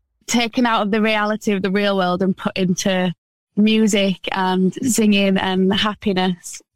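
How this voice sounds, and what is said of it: Regional English accent from Wakefield. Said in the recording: “What is that accent? ... I'm from Wakefield, which is like a little town next to Leeds.”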